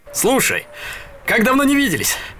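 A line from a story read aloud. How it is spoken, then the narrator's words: Cheerful chatter. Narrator (Russian): весело болтал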